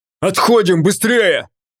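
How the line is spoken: Barked. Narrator (Russian): рявкнул Шрам

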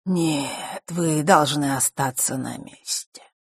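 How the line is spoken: Calm reply. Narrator (Russian): спокойно ответил

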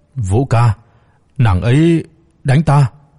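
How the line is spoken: Aggrieved, choked sobbing. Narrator (Vietnamese): Khuôn mặt của hắn ta nhanh chóng sưng lên, ấm ức nghẹn ngào nói

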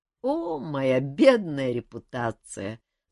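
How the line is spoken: King laughing. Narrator (Russian): засмеялся король

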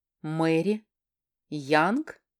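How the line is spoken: Slow, syllable by syllable. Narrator (Russian): Медленно, почти по слогам, проговаривает

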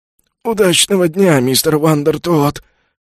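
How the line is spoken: Hoarse wheeze, concierge. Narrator (Russian): прохрипел консьерж

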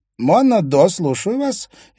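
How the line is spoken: Cheerful energetic chatter through speaker. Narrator (Russian): весело затрещал из динамика энергичный голос криминального репортера газеты ВГ

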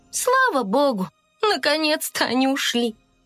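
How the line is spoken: Tired fairy. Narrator (Russian): устало произнесла фея

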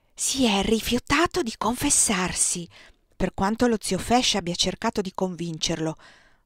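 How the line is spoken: Whispered in ear. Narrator (Italian): sussurrò Carolina all'orecchio di Paulette

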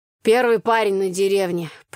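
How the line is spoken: Grumbling. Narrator (Russian): проворчала Таня

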